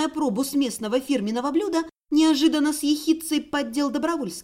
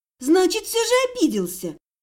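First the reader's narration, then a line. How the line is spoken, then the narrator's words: Cheerful snort. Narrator (Russian): Андрей весело хмыкнул и с особым намеком в тоне веско сообщил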